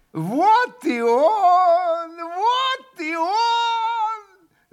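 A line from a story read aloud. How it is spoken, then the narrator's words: Overjoyed yell. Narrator (Russian): Завопил Федор Павлович, вдруг страшно обрадовавшись Алешей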